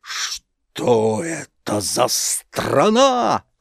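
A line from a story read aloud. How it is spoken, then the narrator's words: Surprised exclamation. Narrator (Russian): воскликнул тогда удивленный главный буржуин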